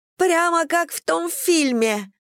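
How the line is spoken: Shriek. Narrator (Russian): взвизгнула Мэдисон

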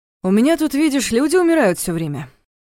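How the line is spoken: Forced carefree tone. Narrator (Russian): нарочито беззаботным тоном сообщил Дементьев

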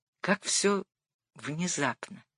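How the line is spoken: Quiet. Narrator (Russian): промолвил он тихо

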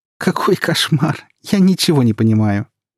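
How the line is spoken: Laughing. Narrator (Russian): продолжила смеяться Тая

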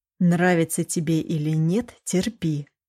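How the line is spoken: Whisper in ear. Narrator (Russian): шепнул ей на ухо

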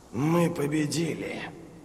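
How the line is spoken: Dry hoarse voice. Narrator (Russian): сказал Глокта, но во рту у него пересохло, и голос прозвучал хрипло

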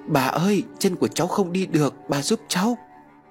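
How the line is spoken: Frightened child crying out. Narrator (Vietnamese): Em sợ hãi kêu lên

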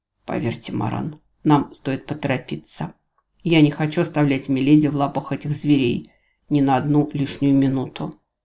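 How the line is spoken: Whisper. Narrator (Russian): он шепотом сказал Экзорту

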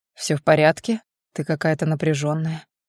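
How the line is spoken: Even-voiced question. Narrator (Russian): ровным голосом спрашивает он

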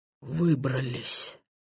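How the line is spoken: Relieved exhale. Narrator (Russian): выдохнул Титов

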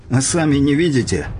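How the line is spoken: Joyless grunt. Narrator (Russian): невесело хмыкнул Горский

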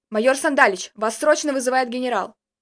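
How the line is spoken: Gruff male bark. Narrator (Russian): Грубым голосом гаркнул мужчина

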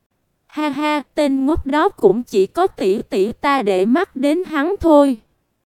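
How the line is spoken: Smiling. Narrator (Vietnamese): Mộ Dung Nhạn cũng mỉm cười nói

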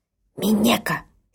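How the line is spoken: Angry frightened hoarse hiss. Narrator (Russian): Сердито прошипела мне перепуганная и моментально охрипшая Ока-сан

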